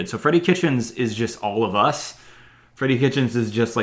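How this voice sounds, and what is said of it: Usual voice. Nothing is said of it.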